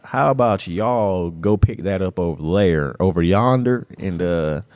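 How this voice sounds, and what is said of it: Put-on Southern country accent. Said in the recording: “I can hit you with that country accent”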